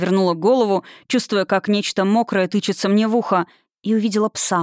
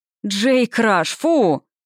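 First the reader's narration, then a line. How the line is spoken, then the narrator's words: Gloomy man shouting. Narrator (Russian): крикнул мрачный тип лет 30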